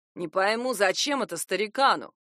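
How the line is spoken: Angry. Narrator (Russian): зло сказал Вик

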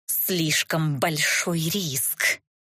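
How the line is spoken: Through gritted teeth. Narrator (Russian): процедила Катисса

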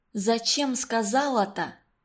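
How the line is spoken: Whispered. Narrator (Russian): шепнула Валентинке Таиска

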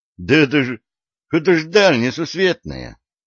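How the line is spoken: Strained, forced out. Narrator (Russian): с трудом выдавил из себя криминальный авторитет

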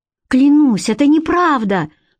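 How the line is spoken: Woman's sharp cry. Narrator (Russian): вскрикнула женщина

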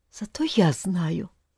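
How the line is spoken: Very quiet. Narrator (Russian): снова очень тихо произнесла Тата

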